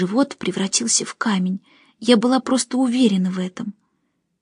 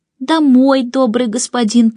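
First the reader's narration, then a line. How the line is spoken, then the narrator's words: Nasal whine. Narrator (Russian): прогнусавила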